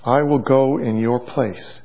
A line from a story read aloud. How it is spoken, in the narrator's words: he said